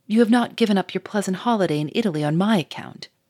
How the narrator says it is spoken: she exclaimed, blushing brightly

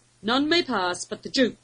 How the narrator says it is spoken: the taller one barked

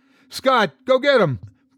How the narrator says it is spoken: Praise yelled

